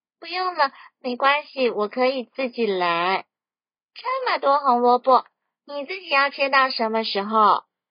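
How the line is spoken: Grinning question. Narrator (Chinese): 小猴子笑嘻嘻的问

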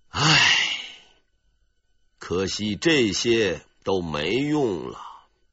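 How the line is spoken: Pitying sigh. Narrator (Chinese): 悲天悯人的表情，发出了一声叹息

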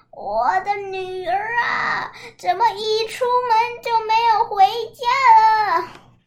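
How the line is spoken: Old woman wailing. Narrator (Chinese): 变成了一个老妇人，拄着拐杖，一边哭一边喊

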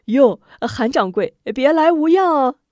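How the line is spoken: Loud shouting. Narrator (Chinese): 管家嚷道

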